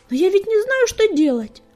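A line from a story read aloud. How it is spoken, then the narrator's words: Pleading. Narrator (Russian): взмолился Огнегриф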